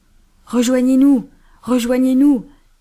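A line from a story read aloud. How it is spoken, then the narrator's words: Shouting. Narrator (French): cria Banks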